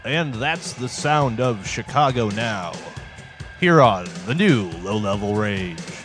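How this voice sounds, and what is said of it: Put-on radio announcer voice. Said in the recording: “You're an announcer now ... This is my new radio voice. ... You turn into somebody I barely know. ... It's a little more pleasing to the ear”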